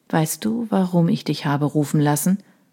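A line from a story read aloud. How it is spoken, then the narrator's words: Quiet question. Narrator (German): fragte er leise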